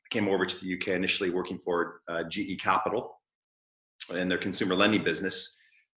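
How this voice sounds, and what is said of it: Non-British foreign accent. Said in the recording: “You'll tell by the accent, probably I wasn't born in the UK”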